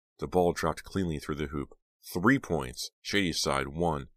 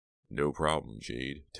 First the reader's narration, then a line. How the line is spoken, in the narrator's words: Teddy murmured